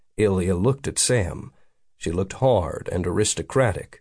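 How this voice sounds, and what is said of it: Usual voice. Nothing is said of it.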